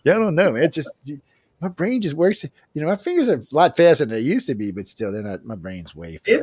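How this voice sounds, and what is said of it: Cajun accent. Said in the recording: “my Cajun accent”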